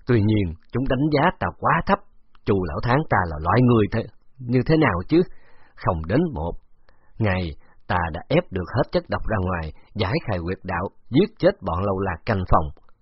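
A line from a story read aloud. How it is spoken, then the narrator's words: Angry growl. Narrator (Vietnamese): lão gầm gừ một tiếng, giận dữ nói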